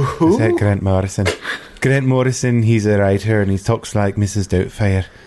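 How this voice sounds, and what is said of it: Usual voice. Nothing is said of it.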